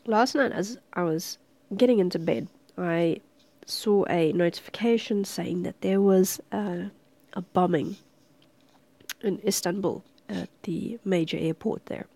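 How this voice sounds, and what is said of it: Sick, slightly weird-sounding voice. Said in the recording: “I'm still a little bit sick, I'm recovering. So my cough was splutter or something during this recording ... my voice sounds a little bit weird”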